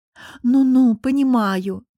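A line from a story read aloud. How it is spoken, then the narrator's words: Long sigh, drawn out. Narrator (Russian): протяжно вздохнув, протянула Анжела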